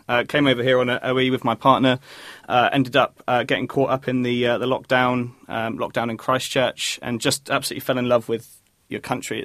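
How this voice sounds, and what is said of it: British accent. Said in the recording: “You'll probably be able to hear I've got the British accent in there somewhere.”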